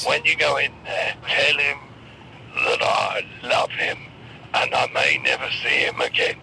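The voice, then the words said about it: Put-on sick-sounding voice. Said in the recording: “you sound ill now ... that's made your voice sound like that”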